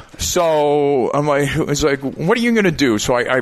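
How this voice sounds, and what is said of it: Usual voice. Nothing is said of it.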